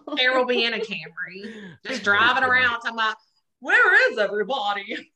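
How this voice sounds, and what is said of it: Bad impression of a celebrity singer. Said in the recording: “worst Cher impression ever in the whole life”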